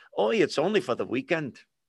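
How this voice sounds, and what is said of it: Poorly done put-on Jewish accent. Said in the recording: “That was Jewish accent. Sorry, that was pretty bad.”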